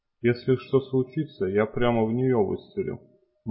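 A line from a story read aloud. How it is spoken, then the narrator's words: Grim. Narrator (Russian): мрачно сказал он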